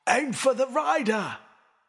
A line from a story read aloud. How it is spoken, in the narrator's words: Sir Criston shouting